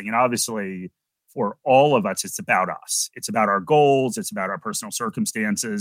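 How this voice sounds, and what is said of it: American accent. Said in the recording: “you can probably tell from my accent that I'm originally from the US”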